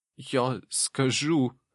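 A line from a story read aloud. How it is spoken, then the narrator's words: Wheezing, hoarse. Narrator (Russian): прохрипел Жак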